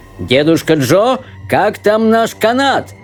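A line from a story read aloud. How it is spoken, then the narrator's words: Shout. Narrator (Russian): крикнул мистер Уонка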